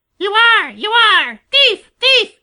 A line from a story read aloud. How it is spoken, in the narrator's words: shrieked Sammy